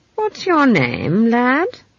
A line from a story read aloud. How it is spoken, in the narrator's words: said, as kindly as possible